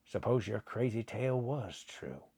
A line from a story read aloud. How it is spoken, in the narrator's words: Buckner muttered, half to himself